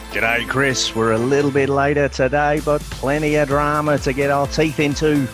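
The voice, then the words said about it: Put-on Australian accent. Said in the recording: “I never know what to say when you do that. I've given up even attempting my Australian accent.”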